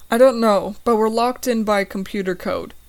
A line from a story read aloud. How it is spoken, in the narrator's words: Brian exclaims